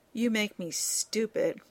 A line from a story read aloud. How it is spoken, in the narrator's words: Rodney muttered